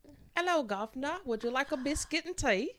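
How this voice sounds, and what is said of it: Put-on English accent. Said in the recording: “Can you do an English accent? ... That was really good to me.”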